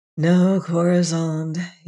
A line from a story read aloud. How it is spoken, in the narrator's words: he sighed